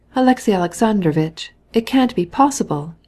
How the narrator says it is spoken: he cried, with pain expressed in his face

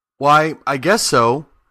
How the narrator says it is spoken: Dorothy answered

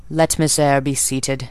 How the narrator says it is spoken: he said, and there was something in the forced, stiff bow, in the impatient yet formal tone

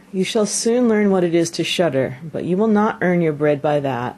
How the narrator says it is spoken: The father sighed, and answered

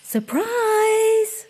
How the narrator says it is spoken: she called out

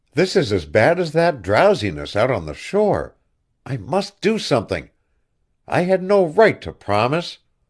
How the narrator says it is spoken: she cried

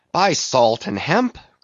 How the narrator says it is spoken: cried Stubb

